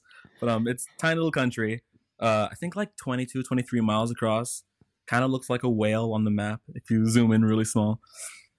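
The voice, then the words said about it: Mild Caymanian accent. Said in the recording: “there is an accent. There is a Caymanian accent. It kind of just came out right there. But it's not too strong. It's kind of like if you mix like English and Spanish, like the rapidness of Spanish with like the like English with like a Jamaican twang”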